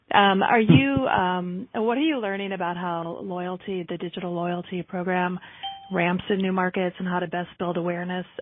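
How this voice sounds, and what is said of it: Choked-up, dry-throated voice. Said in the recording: “I'm getting all choked up here. I need water or coffee.”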